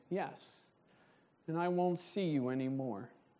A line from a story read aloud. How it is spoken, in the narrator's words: Sadly, Benjamin responds